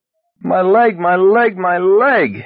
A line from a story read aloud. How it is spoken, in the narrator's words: he screamed, unable to help himself